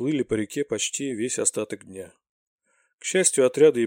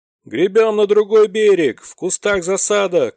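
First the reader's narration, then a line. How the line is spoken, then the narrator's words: Shout. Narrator (Russian): крикнул Роб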